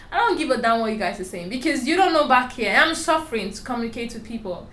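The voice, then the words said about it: Strong foreign accent. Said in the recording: “you have an accent ... I have a strong accent”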